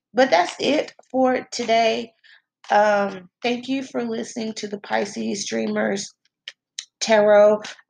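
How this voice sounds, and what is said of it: Slightly rough, crusty voice. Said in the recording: “my voice is a little crusty”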